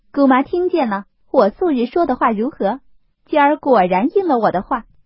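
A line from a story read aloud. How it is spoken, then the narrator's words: Laughing. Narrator (Chinese): 凤姐…笑推薛姨妈道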